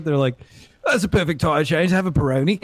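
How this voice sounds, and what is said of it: Put-on British accent. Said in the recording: “say like a perfect British accent”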